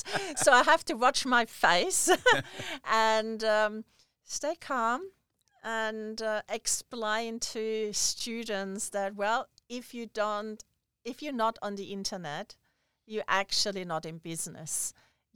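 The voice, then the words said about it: German-Hungarian accented English. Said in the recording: “you probably hear from my accent, I'm half German, half Hungarian”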